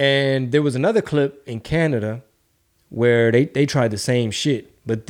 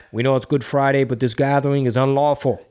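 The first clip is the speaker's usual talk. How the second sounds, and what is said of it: Put-on Boston Irish accent. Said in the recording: “That's a Boston Irish accent ... You sound like Mary Quimby from The Simpsons ... I sound like Mark Wahlberg ... Sound like JFK”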